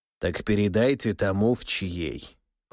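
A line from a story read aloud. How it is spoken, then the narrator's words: Cold command. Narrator (Russian): холодно велел Демидов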